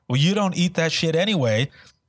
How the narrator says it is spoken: he's yelling at her

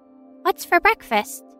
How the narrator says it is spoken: she chirps

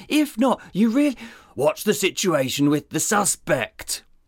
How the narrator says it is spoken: Sizemore groaned through gritted teeth

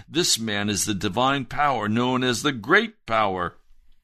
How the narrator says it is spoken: all the people, both high and low, gave him their attention and exclaimed

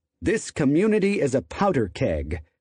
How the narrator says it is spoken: Bakewell said

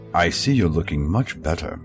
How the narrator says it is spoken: he said, his voice pleasant and cultured

